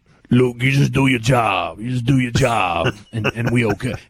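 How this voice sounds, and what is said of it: Growling impression of Tyrone Nix. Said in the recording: “It was a terrible impersonation of him. ... in his old Tyrone Nix growl”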